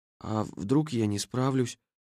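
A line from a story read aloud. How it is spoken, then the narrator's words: Weak-voiced question. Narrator (Russian): спросил он слабым голосом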